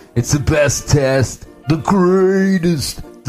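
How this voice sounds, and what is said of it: Donald Trump impression. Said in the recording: “I don't do a Trump impression very well.”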